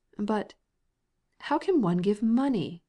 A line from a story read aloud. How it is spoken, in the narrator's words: exclaimed the mother and Kitty simultaneously